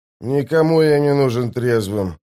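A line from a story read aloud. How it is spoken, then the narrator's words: Mumbling. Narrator (Russian): пробурчал Остряк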